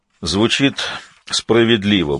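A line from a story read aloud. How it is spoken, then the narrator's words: Grumbling. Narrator (Russian): буркнул принц Мальций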